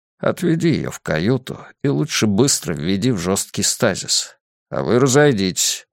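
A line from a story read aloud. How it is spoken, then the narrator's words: Gruff mutter. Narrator (Russian): буркнул он остальным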